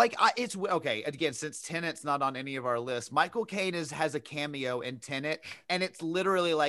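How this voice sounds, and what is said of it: Usual voice. Nothing is said of it.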